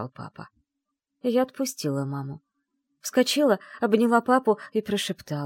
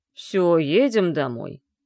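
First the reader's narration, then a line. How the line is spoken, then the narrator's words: Softened grumble. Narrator (Russian): пробурчал папа, мгновенно добрее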